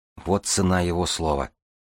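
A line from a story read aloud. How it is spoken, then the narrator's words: Sad, smiling. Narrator (Russian): грустно улыбнулась Власта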